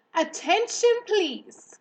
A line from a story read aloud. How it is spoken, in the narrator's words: he said in a loud, firm voice